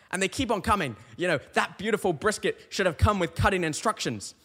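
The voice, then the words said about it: British accent. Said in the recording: “Listen to my accent. ... I'm a Brit”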